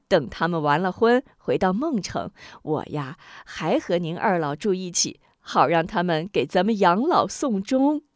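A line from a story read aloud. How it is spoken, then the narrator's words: Woman laughing. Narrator (Chinese): 吴夫人笑道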